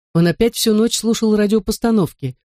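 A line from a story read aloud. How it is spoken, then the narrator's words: Plain. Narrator (Russian): сказала миссис Лизандер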